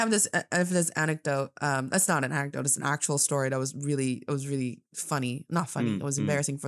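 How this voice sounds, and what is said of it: Usual voice. Nothing is said of it.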